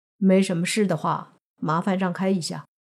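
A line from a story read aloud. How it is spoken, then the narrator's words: Flat, indifferent. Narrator (Chinese): 他只是淡淡的说了句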